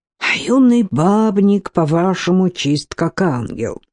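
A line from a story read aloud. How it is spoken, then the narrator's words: Grumbled. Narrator (Russian): проворчала Алена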